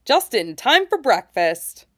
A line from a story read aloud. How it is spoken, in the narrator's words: offers cheerfully